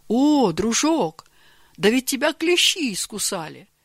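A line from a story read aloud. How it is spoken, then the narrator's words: Exclaimed. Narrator (Russian): воскликнул Георгий Иванович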